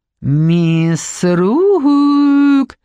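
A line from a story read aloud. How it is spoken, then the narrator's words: Affected drawl. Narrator (Russian): наигранно протянула она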